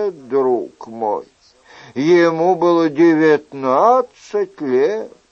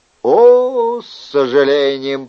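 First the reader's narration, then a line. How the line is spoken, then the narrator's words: Drawled. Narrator (Russian): протянул Шико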